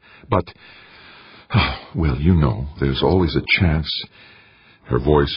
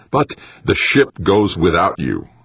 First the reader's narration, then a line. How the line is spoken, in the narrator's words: Wanamaker said, firmly as he could manage